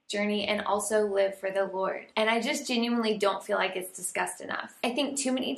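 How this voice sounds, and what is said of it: Raspy, partly lost voice. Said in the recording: “losing my voice a little bit because last night we had revival night at church and I was yelling and hollering and singing for Jesus. So if I sound raspy”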